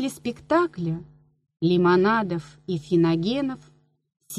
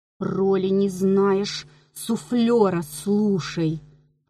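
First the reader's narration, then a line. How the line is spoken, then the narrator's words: Hissed. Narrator (Russian): прошипел трагик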